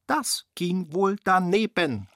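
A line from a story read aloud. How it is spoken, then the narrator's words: Malicious mocking voice. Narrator (German): höhnte Rudi mit boshafter Stimme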